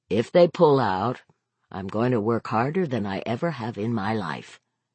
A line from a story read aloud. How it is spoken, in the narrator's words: Vic said